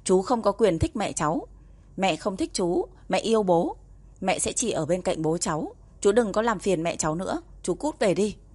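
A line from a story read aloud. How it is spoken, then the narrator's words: Threatening warning. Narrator (Vietnamese): Mộc Niệm cảnh cáo Hứa Cao Lãng với giọng điệu đe dọa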